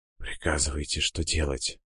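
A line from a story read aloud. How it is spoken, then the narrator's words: Choked, forced out. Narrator (Russian): Сквозь подкативший горло ком выдавил Син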